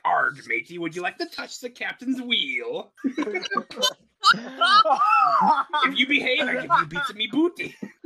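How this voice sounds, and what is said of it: Pirate voice. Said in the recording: “arguing in a pirate voice”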